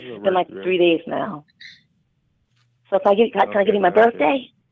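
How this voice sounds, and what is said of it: Hoarse, weak lost voice. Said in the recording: “I lost my voice. ... I can hear it. ... I have a little line virus.”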